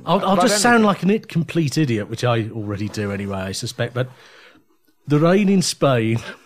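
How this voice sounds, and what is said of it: Birmingham accent. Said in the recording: “the accent I was born with, which I mostly have ... I'm a Birmingham ... his accent is obvious”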